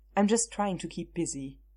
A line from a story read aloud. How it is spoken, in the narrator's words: Chris said